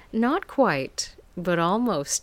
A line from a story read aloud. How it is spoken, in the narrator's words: she laughed